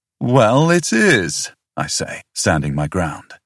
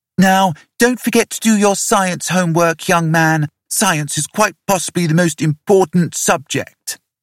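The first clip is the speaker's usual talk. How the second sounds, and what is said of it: Boy imitating his father, chiding. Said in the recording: “slides into a right proper imitation of me, waggling a chiding finger.”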